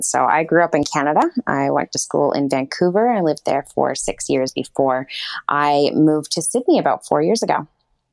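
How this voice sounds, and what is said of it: Canadian accent. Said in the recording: “your accent isn't obviously an Australian accent ... It is not an Australian accent. No, it is actually a Canadian accent.”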